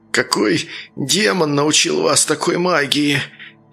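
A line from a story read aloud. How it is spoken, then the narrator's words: Breathed out, tongue barely moving. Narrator (Russian): Едва ворочая языком, выдохнул он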